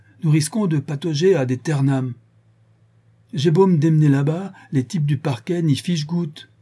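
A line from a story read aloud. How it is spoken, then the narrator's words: Furious exclamation. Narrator (French): s'écria Béchou, furieux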